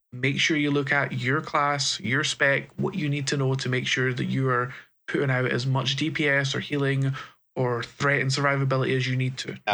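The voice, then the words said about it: Scottish brogue accent. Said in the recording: “I heard you say pooing out ... That's Scottish brogue.”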